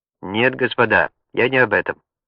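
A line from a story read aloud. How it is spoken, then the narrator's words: Quick reply. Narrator (Russian): быстро ответил профессор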